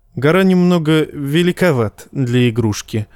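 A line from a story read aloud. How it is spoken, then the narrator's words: Plain. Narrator (Russian): ответил ей Тирион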